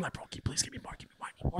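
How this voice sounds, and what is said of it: Whispered line. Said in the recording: “whispering.”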